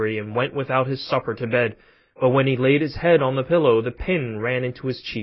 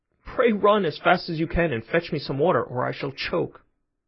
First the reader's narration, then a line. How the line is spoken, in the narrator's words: she was in a great fright and cried out to Chanticleer